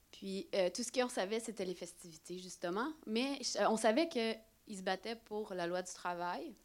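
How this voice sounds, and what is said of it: Québécois French accent. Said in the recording (French): “mon accent ... vu que j'étais au Québec”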